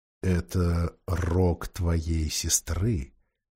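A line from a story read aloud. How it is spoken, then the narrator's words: Quiet. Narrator (Russian): сказал Аслан Питеру тихо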